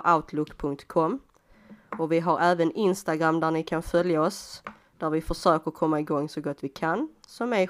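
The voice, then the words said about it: Scanian Swedish accent. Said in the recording (Swedish): “skitsnack på skånska”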